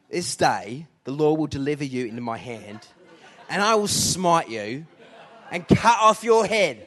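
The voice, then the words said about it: Put-on attitude-filled British accent. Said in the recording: “doing this in a bit of a attitude British accent.”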